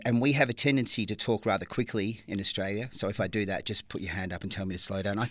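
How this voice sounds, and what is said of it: Natural Australian accent. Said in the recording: “you do that Australian accent pretty well ... my natural accent”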